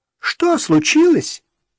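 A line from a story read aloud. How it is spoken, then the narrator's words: Shrill woman's voice. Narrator (Russian): Женщина визгливо переспросила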